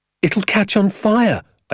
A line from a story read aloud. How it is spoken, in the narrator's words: I cried